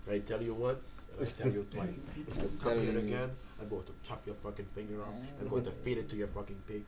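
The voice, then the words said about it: Put-on Cuban-sounding accent. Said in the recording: “You sound Cuban as fuck. ... I got to get my accent right. ... I'm talking Fidel Castro and shit.”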